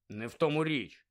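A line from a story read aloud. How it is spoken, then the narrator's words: Mutter. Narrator (Ukrainian): буркнув Рон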